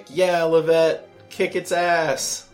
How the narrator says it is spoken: Karis is screaming like

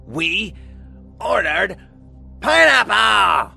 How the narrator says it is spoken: Colleen shrieked

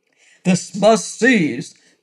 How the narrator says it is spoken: thundered the mercenary

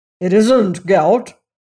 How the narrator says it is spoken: said the Major gruffly

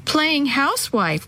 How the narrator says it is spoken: giggled

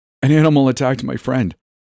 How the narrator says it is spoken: I sputtered out

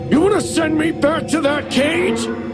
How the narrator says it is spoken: screamed

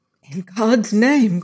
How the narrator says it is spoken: cried the young man in his soul

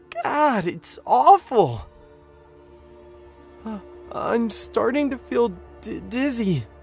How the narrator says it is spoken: John whimpered

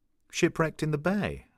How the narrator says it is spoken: I said

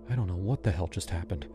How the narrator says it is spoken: I whispered

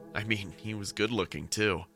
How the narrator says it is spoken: she said while laughing

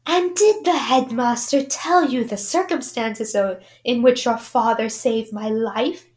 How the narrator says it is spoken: he whispered

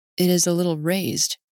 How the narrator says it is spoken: murmurs, and his voice is a shade deeper

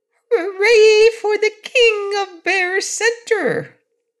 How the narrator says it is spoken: said in a small, shrill voice

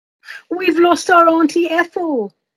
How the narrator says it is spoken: a family cried out in despair

